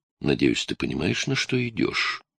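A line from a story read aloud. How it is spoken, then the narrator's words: Grim. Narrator (Russian): мрачно произнесла Молли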